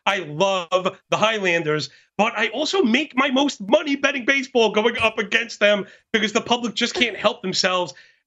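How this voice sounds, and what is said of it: Brooklyn New York accent. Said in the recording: “I can't hide the accent ... born and bred in Brooklyn, New York”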